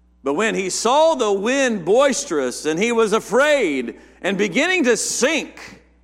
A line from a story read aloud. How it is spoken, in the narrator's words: he cried, saying